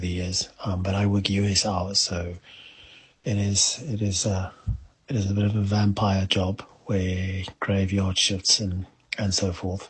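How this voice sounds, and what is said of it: South African English accent. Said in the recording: “South Africans ... Sometimes a bit of a tricky situation with the accent. ... Your average American struggle to understand us sometimes”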